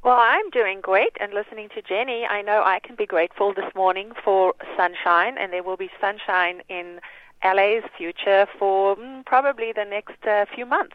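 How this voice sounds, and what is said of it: Slight South African accent. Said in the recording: “do I detect a slight South African accent there? ... You do, indeed. ... I grew up there.”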